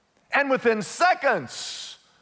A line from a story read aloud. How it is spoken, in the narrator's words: the conductor cried